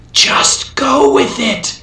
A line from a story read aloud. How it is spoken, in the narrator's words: whispered